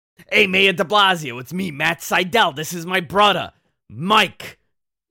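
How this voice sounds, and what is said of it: Imitates another person's voice. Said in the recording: “my Sydal brothers impersonation”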